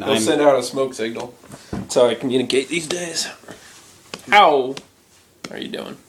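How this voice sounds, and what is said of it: Christopher Walken impression. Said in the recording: “a mix between trying to make fun of Native Americans and trying to do a Christopher Walken impression ... It's Christopher Walken”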